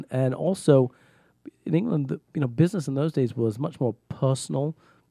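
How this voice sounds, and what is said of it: Speaks with a foreign accent. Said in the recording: “I have a stronger accent than I do today”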